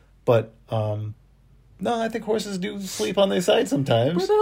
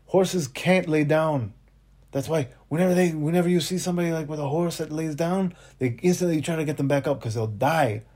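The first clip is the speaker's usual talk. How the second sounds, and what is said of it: Put-on accent imitating a coworker. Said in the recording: “Oh, I'm going to do an accent.”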